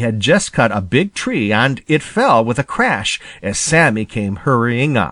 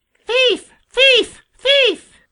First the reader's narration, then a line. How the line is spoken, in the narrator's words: screamed in his harshest voice